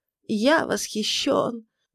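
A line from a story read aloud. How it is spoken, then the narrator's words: Trembling voice. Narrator (Russian): говорил он дрожащим голосом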